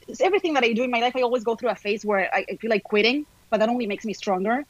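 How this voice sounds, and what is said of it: Non-American foreign accent. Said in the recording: “I have an accent ... working without an accent ... It's not just about talking like an American.”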